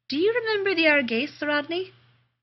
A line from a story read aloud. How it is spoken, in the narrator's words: Elizabeth asked sweetly